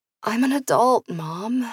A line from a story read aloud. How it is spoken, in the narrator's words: mumbled